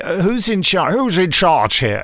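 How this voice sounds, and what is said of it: Imitates another person's voice. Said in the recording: “my appalling impersonation of your late beloved”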